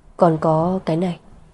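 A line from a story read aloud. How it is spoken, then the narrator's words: Gentle tone. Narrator (Vietnamese): Vân Cảnh dịu dàng nói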